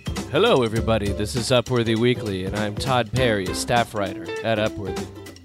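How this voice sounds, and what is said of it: Rough voice from being sick. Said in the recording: “the reason why I have such a sexy voice on today's show is because I've been a little under the weather”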